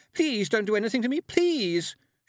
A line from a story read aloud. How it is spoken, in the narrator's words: cried